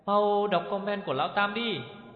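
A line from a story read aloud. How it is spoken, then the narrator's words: Shout. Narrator (Vietnamese): Hầu Từ Từ hét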